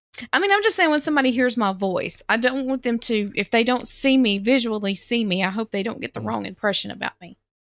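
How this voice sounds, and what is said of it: Southern American accent. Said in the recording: “Do I not sound southern? ... you're southern ... my southern accent”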